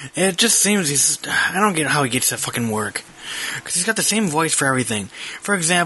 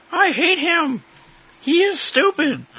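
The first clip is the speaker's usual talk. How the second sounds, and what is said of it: Exaggerated high-pitched imitated voice. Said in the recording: “He's got the high voice going on, like,”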